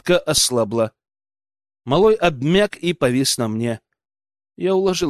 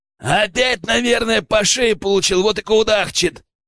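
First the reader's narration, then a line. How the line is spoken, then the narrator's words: Loud bark. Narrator (Russian): гаркнул кто-то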